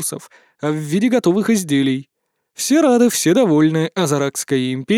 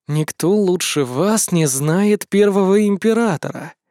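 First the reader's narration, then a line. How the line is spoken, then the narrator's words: Slow drawl. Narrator (Russian): медленно протянул я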